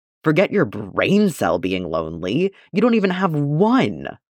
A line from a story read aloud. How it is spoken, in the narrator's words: Arla says loudly